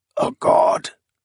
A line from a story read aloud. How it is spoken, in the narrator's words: Nayor rasped